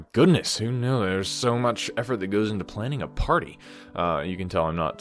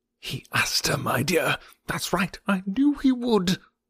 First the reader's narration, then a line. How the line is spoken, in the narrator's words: Weston whisper to his wife